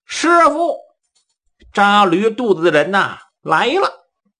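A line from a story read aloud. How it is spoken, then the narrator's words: Loud shout. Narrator (Chinese): 杜林大声喊道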